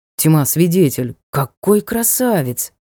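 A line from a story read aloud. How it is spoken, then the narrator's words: Sincere admiration. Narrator (Russian): В голосе темного лорда прозвучало искреннее восхищение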